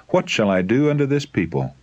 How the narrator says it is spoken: In distress, Moses cried to the Lord

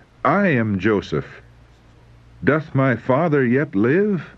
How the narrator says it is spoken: weeping aloud, he cried

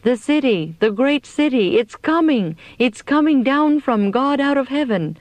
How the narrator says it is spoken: We all cried out

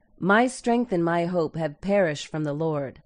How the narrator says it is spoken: exclaimed

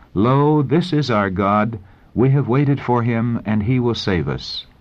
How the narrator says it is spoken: the voices of the saints in joyful strains, exclaiming

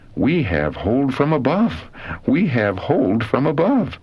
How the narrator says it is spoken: exclaiming

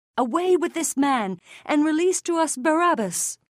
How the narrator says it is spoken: But they cried out again

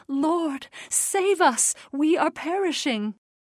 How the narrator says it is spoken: They saw tender love in his glance, and they cried

